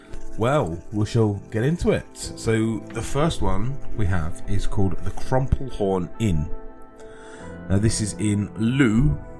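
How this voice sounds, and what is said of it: London accent. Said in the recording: “I've got a London accent.”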